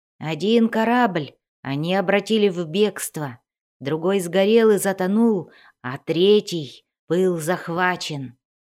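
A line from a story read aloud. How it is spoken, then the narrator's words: Growling. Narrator (Russian): зарычал Пиноч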